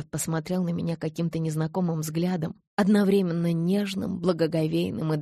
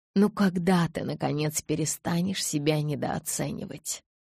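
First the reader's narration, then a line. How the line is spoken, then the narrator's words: Whispered. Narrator (Russian): прошептал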